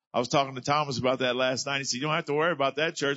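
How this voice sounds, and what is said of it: South Louisiana accent. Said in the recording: “my South Louisiana accent, thinking y'all might need an interpreter”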